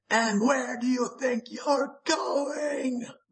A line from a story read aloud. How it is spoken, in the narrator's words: the Lurking shrieked